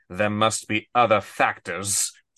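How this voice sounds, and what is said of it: Alan Rickman's Snape impression. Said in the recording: “That's a pretty good Snape, pretty good Alan Rickman there.”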